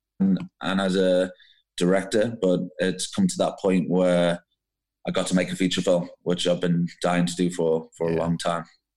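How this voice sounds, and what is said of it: Scouse African accent. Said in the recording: “your Scouse African accent is an awesome accent, because I can pick up both”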